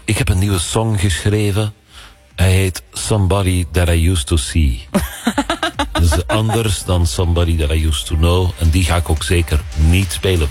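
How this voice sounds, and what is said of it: Bad put-on Flemish accent. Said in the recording (Dutch): “je praat dus met een Vlaams accent, want hij komt uit België ... een slecht accent hoor trouwens”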